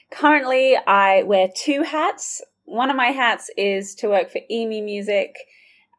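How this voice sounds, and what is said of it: Slight Australian accent. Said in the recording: “you might hear I've got a bit of a twang ... I'm originally from Sydney, Australia”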